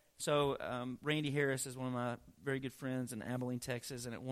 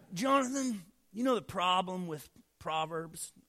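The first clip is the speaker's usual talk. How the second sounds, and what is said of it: Impression of Randy Harris. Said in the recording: “that's my Randy Harris impression.”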